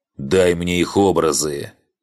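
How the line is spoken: Barked command. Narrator (Russian): Рявкнул архангел

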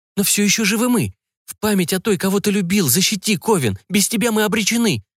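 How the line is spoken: Indignant whisper, young woman. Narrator (Russian): возмущенно зашептала девушка

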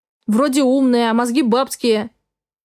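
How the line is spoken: Clipped, through teeth. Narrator (Russian): процедил он

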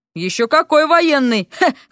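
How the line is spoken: Chuckling. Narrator (Russian): хохотнул Миша

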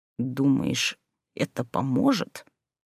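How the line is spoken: Through gritted teeth. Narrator (Russian): процедил сквозь зубы Люций

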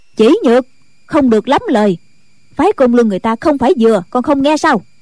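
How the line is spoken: Loud scolding. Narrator (Vietnamese): Diệt Tuyệt sư thái cũng lớn tiếng mắng

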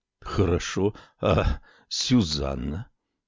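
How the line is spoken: Muffled question. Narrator (Russian): глухо спросил Салеман

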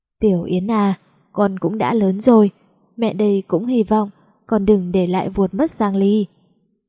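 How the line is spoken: Mother's deep sigh. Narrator (Vietnamese): Mẹ tôi thở dài thật sâu, nói

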